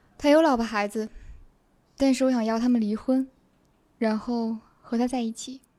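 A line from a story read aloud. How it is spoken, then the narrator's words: Whispering. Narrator (Chinese): 他小声说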